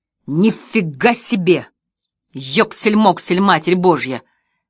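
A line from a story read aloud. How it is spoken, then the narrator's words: Exclamation. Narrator (Russian): воскликнул Джерри Вулт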